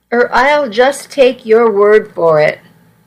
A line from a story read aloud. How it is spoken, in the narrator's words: I sighed and said